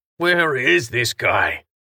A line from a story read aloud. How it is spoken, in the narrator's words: Pesh grumbled